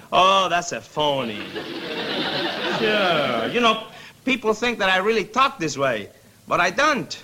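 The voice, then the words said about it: Speaks with a noticeable accent. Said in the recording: “Oh, you mean my accent?”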